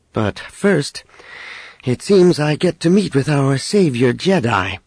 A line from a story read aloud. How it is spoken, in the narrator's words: Leia added dryly